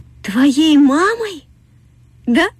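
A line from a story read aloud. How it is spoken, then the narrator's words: Eager, joyful. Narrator (Russian): радостно сказала продавщица мороженого, будто только этого и ждала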